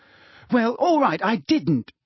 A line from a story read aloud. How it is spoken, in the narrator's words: she said, wiping her eyes angrily